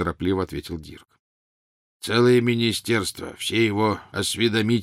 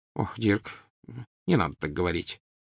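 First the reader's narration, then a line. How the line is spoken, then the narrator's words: Muttered. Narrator (Russian): пробормотал Тед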